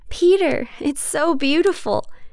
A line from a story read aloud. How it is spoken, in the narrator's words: Mary breathlessly exclaims